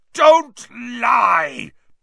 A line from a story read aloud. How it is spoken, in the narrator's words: bellowed Black